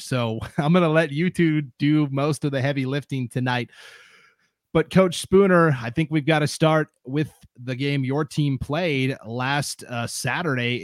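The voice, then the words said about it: Strained, sick-sounding voice. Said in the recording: “apologies for my voice as well. I'm in the middle of a sickness, and my voice is like right at the edge of the cliff here.”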